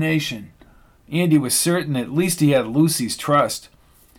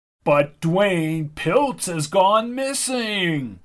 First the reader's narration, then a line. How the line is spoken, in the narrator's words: whined Hobart